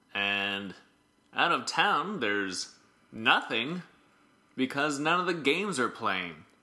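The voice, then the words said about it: Sarcastic, over-enunciated broadcaster voice. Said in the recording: “he's more of a sarcastic enunciating guy ... That's my Mike Wilner impression.”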